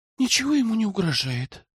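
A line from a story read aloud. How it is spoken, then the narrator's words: Sighing. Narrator (Russian): вздохнула Тиана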